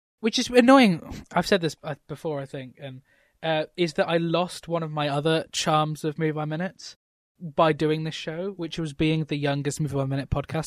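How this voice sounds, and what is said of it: English accent. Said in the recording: “I'm always impressed by uh, an English accent.”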